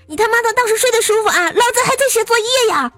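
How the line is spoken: Angry roar. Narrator (Chinese): 对面怒吼道

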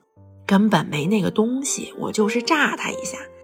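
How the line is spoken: Quiet voice. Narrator (Chinese): 牛胖子也小声说

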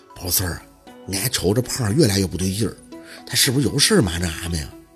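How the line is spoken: Lowered voice. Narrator (Chinese): 庞爸……声音放轻

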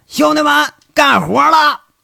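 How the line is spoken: Loud shout. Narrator (Chinese): 杨伟这一扯嗓子就喊了

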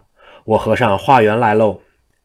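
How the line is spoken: Shouting. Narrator (Chinese): 济公就喊

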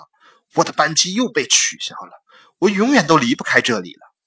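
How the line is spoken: Man shouting loudly. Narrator (Chinese): 过道面对有个男人大声的叫道

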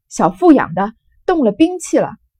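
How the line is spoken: Crowd shouting chaotically. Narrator (Chinese): 一齐乱嚷

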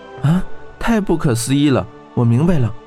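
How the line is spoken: Amazed. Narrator (Chinese): 温莎惊叹道

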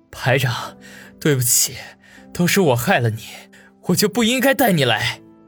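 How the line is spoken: Tearful choked voice. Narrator (Chinese): 王宇忍不住流出眼泪，哽咽的说道

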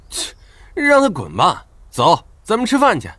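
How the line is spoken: Scoffing laugh. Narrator (Chinese): 张胖子嗤笑一声

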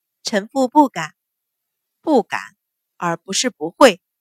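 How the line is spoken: Low voice. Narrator (Chinese): 秦氏低声道

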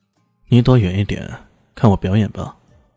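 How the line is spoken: Cold laugh. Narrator (Chinese): 李炫冷冷一笑，说道

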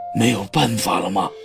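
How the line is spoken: Pale, trembling voice. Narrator (Chinese): 失态的皇上 声音里的苍白和颤抖出卖了他的情绪

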